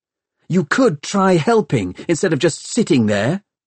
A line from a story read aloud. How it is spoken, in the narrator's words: Tom snapped back